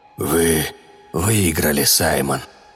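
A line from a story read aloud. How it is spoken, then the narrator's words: Respectful whisper. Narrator (Russian): прошептал черт с беззлобным уважением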